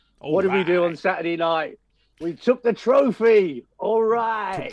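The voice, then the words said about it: Deliberately poor celebrity voice impression. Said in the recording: “my worst Matthew McConaughey impersonation”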